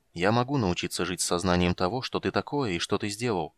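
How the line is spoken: Quiet, soft-spoken. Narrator (Russian): негромко сказал Карамон

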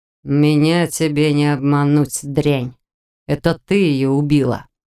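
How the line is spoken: Hateful growl. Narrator (Russian): С неприкрытой ненавистью прорычал незнакомец

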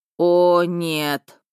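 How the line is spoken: Groan. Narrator (Russian): простонал Миха

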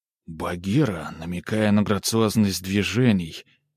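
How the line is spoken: Entranced breathless exclamation. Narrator (Russian): выдохнул Тимоха, зачарованно

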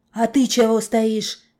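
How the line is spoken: Barked. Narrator (Russian): рявкнул он на Настену

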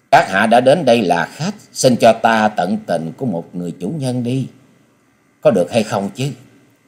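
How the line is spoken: Gentle woman's voice. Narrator (Vietnamese): Nữ hội chủ giọng nhẹ nhàng nói

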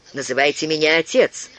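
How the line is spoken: Sharp, curt reply. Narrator (Russian): резко ответил приор

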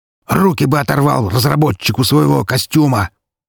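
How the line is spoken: Growling like a lion. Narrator (Russian): прорычал носорог не хуже льва

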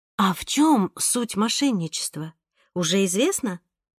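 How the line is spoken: Plain. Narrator (Russian): спросила мама

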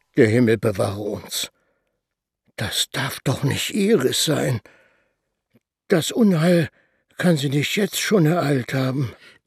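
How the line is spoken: Murmured. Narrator (German): Er murmelte

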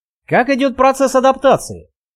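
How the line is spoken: Cheerful question. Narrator (Russian): весело поинтересовался Вадим

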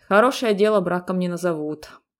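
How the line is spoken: Grumbling. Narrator (Russian): проворчала Алиса

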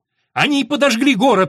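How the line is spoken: Shout. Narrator (Russian): снова закричал Джек

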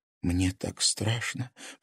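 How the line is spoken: Whispering. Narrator (Russian): прошептала Лиза

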